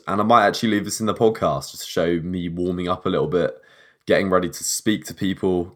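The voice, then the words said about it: Calm, smooth FM radio DJ voice. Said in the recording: “I'm putting on a nice FM DJ radio voice. Calm and composed”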